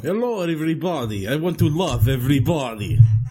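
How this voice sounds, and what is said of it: Fake Russian accent. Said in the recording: “crazy Russian accent ... Fake Russian accent ... That is not a real accent.”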